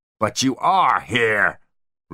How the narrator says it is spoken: roared Spyro, his nerves shot

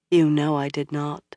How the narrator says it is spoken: Moiraine said gently

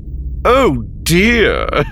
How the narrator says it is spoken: said mockingly

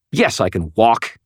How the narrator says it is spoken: snapped

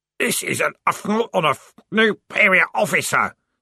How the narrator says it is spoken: screamed the corporal in a muffled voice

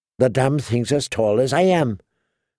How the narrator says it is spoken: Tyrion muttered in a low voice

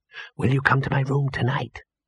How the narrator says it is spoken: hissed Ginger

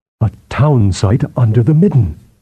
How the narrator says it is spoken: Balik murmured

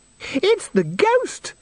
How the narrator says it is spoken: shrieked Christine automatically

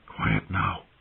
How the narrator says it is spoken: he said in a hushed voice, crouching down

